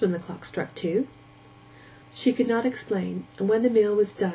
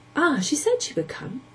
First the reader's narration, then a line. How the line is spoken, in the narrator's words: exclaimed the boy